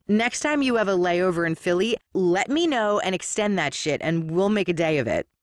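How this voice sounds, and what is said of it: Philadelphia accent. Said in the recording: “you think I have a voice for radio ... you know, the Philly accent.”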